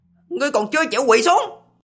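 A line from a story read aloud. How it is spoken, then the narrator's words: Cold harsh shout. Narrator (Vietnamese): Lý Vân quát lạnh, sắc mặt âm hàn vô cùng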